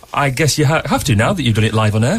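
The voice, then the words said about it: Put-on posh radio voice. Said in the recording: “put on a posh voice then. You didn't sound normal at all. That was your radio voice”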